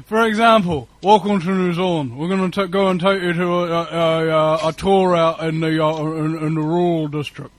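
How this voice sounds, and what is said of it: Elongated New Zealand drawl, jaw barely moving. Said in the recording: “a language that involves no movement of the lower jaw ... it's just kind of this elongated sort of drawl sort of thing”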